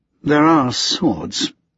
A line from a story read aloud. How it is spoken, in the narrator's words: After a moment of awkward silence, Antony murmured